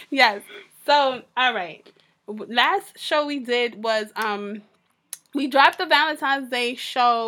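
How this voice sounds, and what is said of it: Raspy, sore-throat voice. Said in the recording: “my voice is real raspy right now ... I have, like, a sore throat ... my voice is a little raspy”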